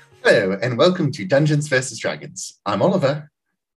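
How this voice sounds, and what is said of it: Put-on British accent. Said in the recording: “British accent ... do British accents for the whole time”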